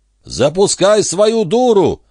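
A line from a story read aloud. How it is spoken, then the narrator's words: Deafening yell. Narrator (Russian): заорал он так, что голова чуть не раскололась надвое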